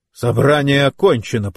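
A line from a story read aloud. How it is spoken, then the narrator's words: Growling into microphone. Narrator (Russian): прорычал Рэй прямо в микрофон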